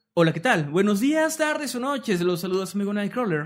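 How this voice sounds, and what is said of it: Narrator voice. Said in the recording (Spanish): “voz de narrador”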